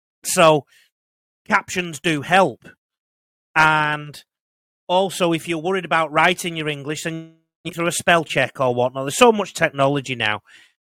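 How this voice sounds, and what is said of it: Northern English accent. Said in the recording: “I've got a Northern English accent”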